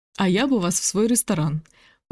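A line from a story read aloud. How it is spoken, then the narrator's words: Quick retort. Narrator (Russian): парировала Нелли, и оба от души рассмеялись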